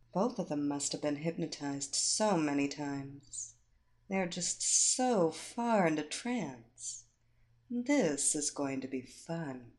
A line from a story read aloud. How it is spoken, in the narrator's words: To no one in particular, Evilena muttered